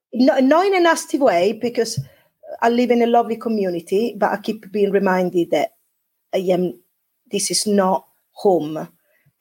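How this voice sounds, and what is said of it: Non-local, non-Devon accent. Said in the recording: “my accent is a little bit not Devonian”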